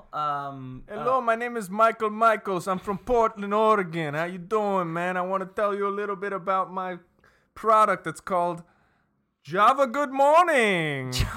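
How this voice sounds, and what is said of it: Put-on accent, not from Portland. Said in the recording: “the accent's a little misleading”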